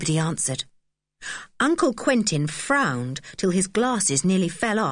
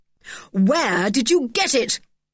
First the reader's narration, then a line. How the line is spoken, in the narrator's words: he barked